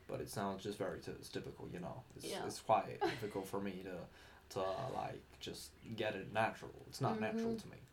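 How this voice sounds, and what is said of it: Put-on American accent. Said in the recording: “I'm trying to do an American accent ... I sound like Barack Obama now”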